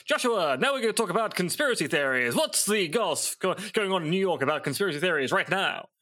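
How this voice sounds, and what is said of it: Clipped Mid-Atlantic accent. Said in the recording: “talk in clipped Atlantic accents ... Famous North those Atlantic accent right there”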